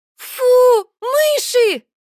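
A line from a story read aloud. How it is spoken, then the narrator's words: Startled exclamation. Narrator (Russian): воскликнула незнакомка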